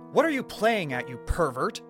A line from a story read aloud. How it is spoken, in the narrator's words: Julie yelled, frantically